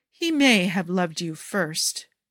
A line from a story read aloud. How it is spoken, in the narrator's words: Jafar purrs with a cruel smirk